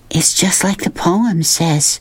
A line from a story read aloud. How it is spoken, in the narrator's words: Sistine breathed